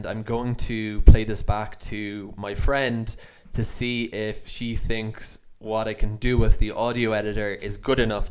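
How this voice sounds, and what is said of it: Irish accent. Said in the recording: “my Irish accent comes through”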